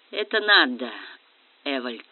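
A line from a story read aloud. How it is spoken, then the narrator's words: Gentle. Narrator (Russian): мягко сказал Квицинский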